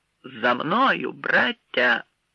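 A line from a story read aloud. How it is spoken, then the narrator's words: Rallying shout. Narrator (Ukrainian): вигукнув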